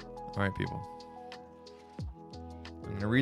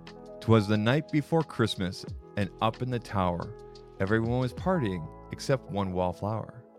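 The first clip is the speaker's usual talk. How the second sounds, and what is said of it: Slow, deliberate read-aloud storytelling. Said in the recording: “read this slowly”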